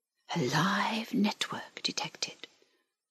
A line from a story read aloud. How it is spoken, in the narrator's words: whispered the link